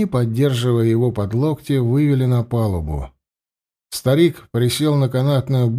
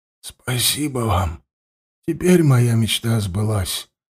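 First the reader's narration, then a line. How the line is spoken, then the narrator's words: Hoarse whisper. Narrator (Russian): хрипло прошептал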